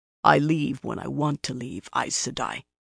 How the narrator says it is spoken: he said harshly, but in a low voice

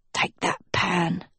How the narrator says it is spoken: he babbled softly

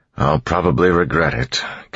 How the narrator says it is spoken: Kelsier said, sighing

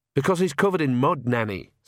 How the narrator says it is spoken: said Agnes sharply

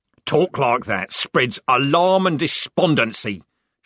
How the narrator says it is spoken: shouted Corporal Strappy

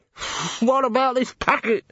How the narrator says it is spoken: shouted Downey, clutching his streaming nose

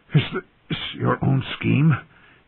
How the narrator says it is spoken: He gasped out at Varys

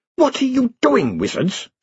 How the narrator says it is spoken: she snapped

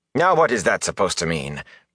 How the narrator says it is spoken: Bran said sharply

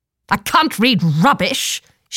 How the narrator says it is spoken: she snapped

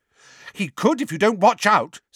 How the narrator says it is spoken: said Hermione angrily

